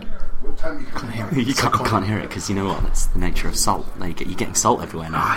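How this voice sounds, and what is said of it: Hushed, quiet voice. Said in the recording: “I feel like I'm speaking in a hushed voice.... No, you're usually normally screaming.”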